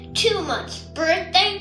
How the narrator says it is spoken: scoffed Papa and the cubs

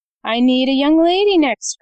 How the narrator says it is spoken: cried Mr

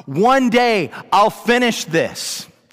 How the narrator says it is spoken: did not shout

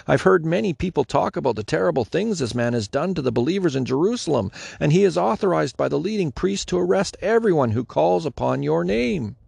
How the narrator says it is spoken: exclaimed Ananias

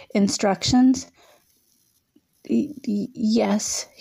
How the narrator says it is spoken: he stammered

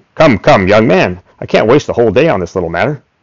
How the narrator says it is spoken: my prospective client snapped

